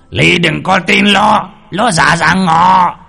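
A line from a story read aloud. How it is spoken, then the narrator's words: Thunderous roar. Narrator (Vietnamese): đằng sau lưng lại có tiếng gào lên như sấm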